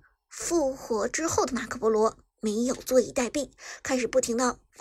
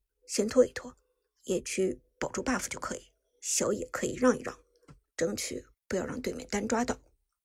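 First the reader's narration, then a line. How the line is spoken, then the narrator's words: Low voice. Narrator (Chinese): 旺财低声问道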